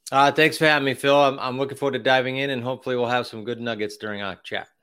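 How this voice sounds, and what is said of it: Massachusetts accent. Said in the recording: “I can tell by your accent, you're from Massachusetts”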